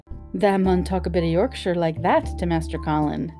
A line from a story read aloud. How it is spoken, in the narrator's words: Dickon chuckled